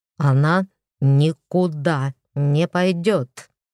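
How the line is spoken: Through clenched teeth. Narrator (Russian): Процедил Кощей сквозь стиснутые зубы

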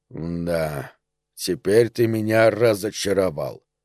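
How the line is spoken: Drawling. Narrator (Russian): протянул куколка

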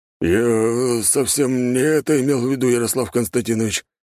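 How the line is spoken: Embarrassed hoarse wheeze. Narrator (Russian): просипел багровый до корней волос Прохор

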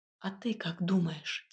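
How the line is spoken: Quiet question. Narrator (Russian): тихо спросила

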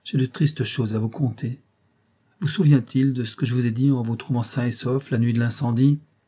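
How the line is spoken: Eager exclamation. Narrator (French): s'écria Feub avec empressement

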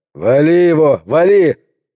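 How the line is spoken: Shout. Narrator (Russian): крикнул Торгерсон

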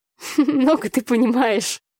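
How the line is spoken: Laughing. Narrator (Russian): засмеялась я

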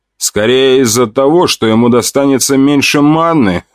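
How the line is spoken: Laughing. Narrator (Russian): хохотнул я

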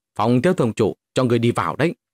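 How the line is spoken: Angry. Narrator (Vietnamese): hộ vệ kia tức giận nói

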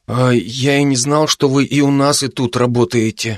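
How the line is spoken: Confused mumble. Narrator (Russian): растерянно пробормотал Алекс

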